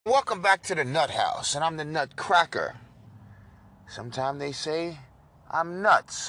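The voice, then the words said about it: New York accent. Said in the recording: “this accent is from New York, not Rhode Island or Connecticut ... it's not from Jersey or Massachusetts”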